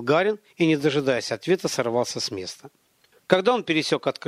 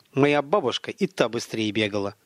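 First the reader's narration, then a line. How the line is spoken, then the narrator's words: Grumbling. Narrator (Russian): проворчал Михаил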